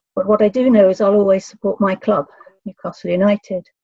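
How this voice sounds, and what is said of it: Non-local accent. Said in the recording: “you'll tell from my accent I wasn't born here”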